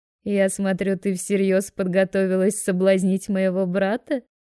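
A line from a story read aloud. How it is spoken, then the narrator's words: Giggling. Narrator (Russian): хихикает Лаура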